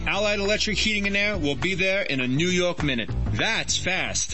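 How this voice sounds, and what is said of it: New York accent. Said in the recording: “people still ask me if I'm from New York ... You don't hear it, do you? ... What accent?”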